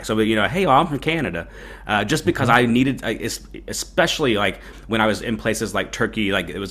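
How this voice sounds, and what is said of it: Thick Southern US accent. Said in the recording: “even with this thick Southern accent”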